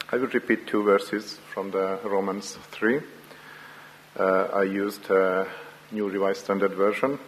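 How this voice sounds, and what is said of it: Hungarian-accented English. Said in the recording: “the Hunglish accent from Hungary”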